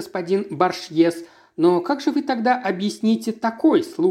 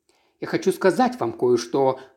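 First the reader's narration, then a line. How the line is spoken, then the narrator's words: Whisper. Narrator (Russian): прошептал мистер Стоунхедж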